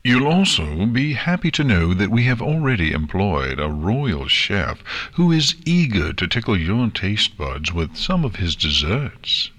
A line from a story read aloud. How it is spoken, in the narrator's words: Nexus said happily